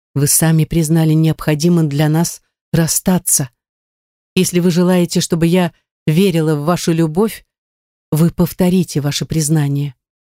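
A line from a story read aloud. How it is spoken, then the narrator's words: Soothing tone. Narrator (Russian): она произнесла успокаивающим тоном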